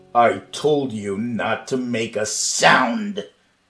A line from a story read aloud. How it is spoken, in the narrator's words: Marvin growled